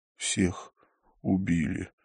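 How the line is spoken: Breathed out. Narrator (Russian): выдохнул он

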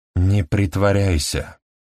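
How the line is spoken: Flat lifeless voice. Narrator (Russian): ровным безжизненным голосом сказала она

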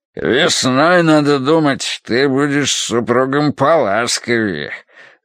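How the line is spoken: Deep bass voice. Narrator (Russian): пробасил он

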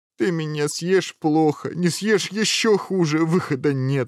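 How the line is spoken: Said, then sobbing. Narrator (Russian): сказал принц и зарыдал

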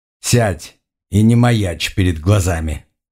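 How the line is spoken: Stern, irritated command. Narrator (Russian): Строгим голосом, с нотками раздражения, распорядился Оригон Севиньрон

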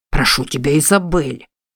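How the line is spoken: Frightened whisper. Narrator (Russian): зашептал Стэнли, побелев как бумага

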